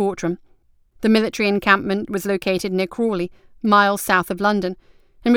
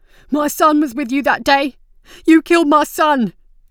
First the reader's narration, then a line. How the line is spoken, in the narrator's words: a man shouted